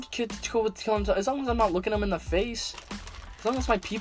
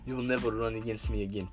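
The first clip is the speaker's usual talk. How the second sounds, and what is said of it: Put-on Russian accent. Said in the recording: “I'll develop a Russian accent just so I sound badass.”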